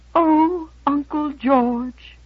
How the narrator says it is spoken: her lower lip began to tremble, and she quavered

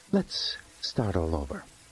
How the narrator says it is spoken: said, in a very calm voice

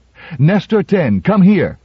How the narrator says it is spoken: she cried

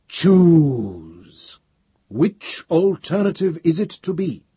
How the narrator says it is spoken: The voice of Gaia, channeled through Novi's mind, thundered

